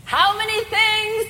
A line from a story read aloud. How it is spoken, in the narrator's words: Max yelled from the back of the sanctuary